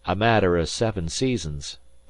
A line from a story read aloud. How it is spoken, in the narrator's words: returned Tom Platt coolly